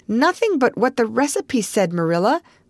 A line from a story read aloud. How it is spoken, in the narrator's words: cried Anne, with a look of anguish